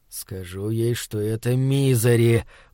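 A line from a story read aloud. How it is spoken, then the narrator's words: Hoarse wheeze. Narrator (Russian): прохрипел он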